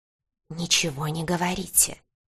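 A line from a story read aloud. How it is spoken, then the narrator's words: Mysterious whisper. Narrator (Russian): загадочным шепотом произнес он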